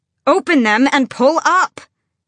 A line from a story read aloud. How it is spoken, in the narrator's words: She bellowed